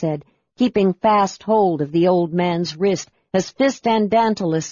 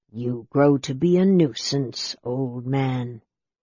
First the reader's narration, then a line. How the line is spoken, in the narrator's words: Raceland said softly